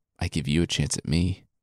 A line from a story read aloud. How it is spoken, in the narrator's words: She said, sadly and quietly